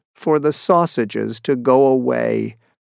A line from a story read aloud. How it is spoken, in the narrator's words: said the fisherman sadly